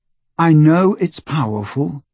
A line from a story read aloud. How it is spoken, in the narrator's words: said Harry wearily